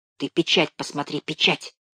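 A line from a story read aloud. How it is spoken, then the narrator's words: Whispered. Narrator (Russian): шептал Левка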